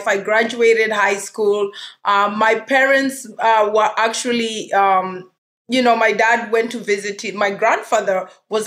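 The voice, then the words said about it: Kenyan accent. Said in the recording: “I hear that beautiful accent. You're originally from Kenya, right?”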